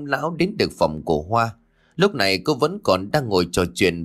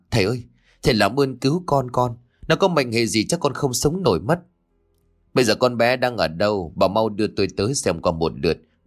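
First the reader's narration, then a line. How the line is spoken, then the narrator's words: Frantic, panicked. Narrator (Vietnamese): Bà Hiền rối rít trong cơn hoảng loạn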